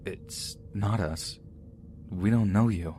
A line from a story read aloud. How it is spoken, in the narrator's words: they start speaking in a very shaky voice, saying